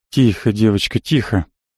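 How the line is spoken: Whispered. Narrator (Russian): шептал я

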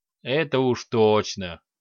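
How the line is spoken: Chuckling, orc. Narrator (Russian): хохотнул орк

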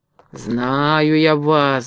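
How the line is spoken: Angry mutter. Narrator (Russian): бормотал он сердито

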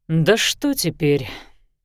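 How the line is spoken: Sighing. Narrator (Russian): тоже вздохнул Лещинский

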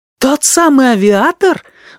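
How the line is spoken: Exclaimed in amazed delight. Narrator (Russian): воскликнула Джотта изумленно и восторженно

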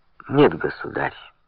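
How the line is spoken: Calm objection. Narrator (Russian): спокойно возразил тот, кому суждено было стать Филиппом Длинным

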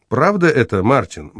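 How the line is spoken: Calm and stern. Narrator (Russian): говорил спокойно и сурово

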